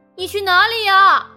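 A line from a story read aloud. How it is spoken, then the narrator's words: Surprised loud question. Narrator (Chinese): 蝈蝈惊讶的大声的问我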